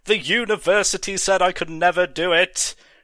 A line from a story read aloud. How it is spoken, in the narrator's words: screamed Moreau